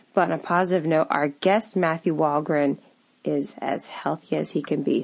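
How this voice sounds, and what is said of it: Sick-sounding voice. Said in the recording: “Please forgive my voice. I am a little under the weather with a summer cold.”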